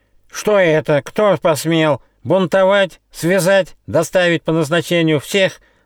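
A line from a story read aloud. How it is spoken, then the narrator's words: Snide yelling. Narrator (Russian): завопил ехидно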